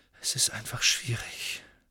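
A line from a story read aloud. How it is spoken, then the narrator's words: Quiet hesitant speech. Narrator (German): sagte Harry schließlich leise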